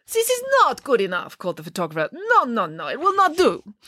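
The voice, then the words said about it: Fake Italian accent. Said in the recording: “That fake Italian accent”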